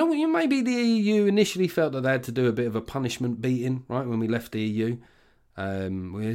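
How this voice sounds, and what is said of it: Usual voice. Nothing is said of it.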